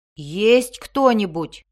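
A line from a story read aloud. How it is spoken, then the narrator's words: Shouted. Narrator (Russian): крикнул Белвар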